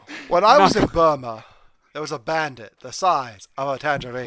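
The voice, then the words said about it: Imitates another person's voice, British accent. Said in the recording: “Everyone do their best Michael Caine impression ... in a British accent”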